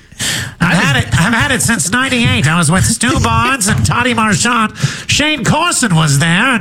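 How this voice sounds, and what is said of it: Nasal Dick Vinaret impression. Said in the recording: “you do the best Dick Vinaret impression ... The key is to pinch your nose ... you can sound just like him”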